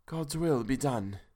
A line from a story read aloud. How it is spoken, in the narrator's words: she said solemnly